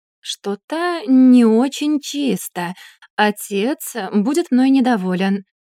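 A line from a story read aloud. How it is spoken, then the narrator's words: Doubtful drawl. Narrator (Russian): с сомнением протянул Альберт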